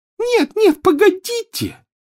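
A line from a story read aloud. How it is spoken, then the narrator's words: Shrill shriek, loud echo. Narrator (Russian): взвизгнула Плакса Миртл, и по туалету разнеслось громкое эхо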